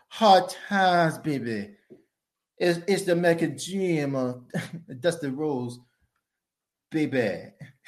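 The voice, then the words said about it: Dusty Rhodes impression. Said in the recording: “that Dusty Rhodes impression”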